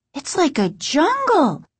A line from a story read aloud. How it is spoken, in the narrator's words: Margaret exclaimed